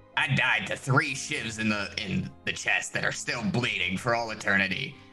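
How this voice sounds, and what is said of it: Harsh, gravelly, ground-down voice. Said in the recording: “I'm haggard from all the smoking that I did in my life, and my voice sounds like I put it through a fucking grinder.”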